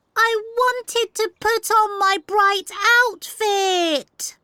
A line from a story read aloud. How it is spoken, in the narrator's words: Amber cried